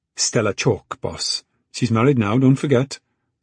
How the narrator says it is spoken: said Marie

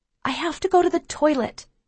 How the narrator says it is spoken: I tell Ma urgently

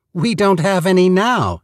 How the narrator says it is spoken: she exclaimed

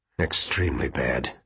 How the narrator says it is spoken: Quentin said thickly

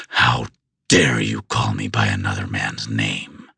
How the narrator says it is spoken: I snarled

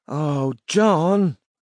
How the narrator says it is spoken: Robin moaned

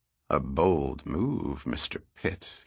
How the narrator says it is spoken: he muttered

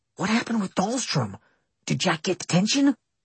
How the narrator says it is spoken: When Paulson's back was turned, Austin whispered

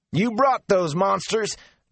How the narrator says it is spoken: Darl roared

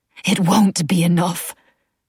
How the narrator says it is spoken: she rasped

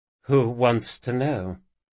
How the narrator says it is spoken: said the woman hesitantly

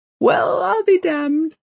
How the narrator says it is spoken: laughs Kent

